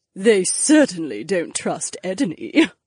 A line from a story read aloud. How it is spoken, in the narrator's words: another chuckled